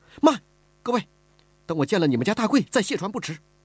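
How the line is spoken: Anxious, urgent. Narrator (Chinese): 李婉儿急了

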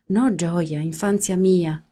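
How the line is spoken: Plain. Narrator (Italian): le disse

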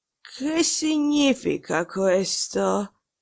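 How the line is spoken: Hoarse voice. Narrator (Italian): dire con voce rauca

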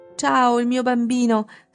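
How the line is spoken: Emphatic shriek. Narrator (Italian): strillò enfatica

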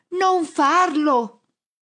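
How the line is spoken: Shouting. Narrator (Italian): urlo al tizio

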